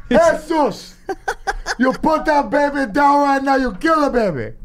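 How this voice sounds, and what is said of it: Bad put-on Spanish accent. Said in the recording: “You sound like Scarface with Down syndrome. ... That's the worst Spanish accent I've ever heard in my life.”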